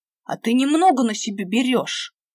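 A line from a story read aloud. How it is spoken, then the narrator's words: Growled. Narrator (Russian): Прорычал Димка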